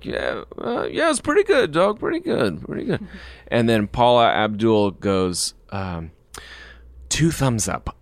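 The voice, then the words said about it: Imitates another person's voice. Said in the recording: “do your impression”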